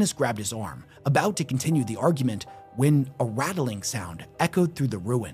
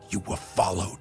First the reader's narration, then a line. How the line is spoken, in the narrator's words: whispered Sabinus